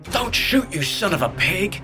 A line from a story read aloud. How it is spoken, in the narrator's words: Nodding roared